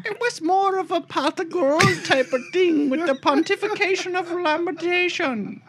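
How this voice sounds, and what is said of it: Put-on leprechaun-style Irish accent. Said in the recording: “He went to leprechaun school. ... talk like a leprechaun”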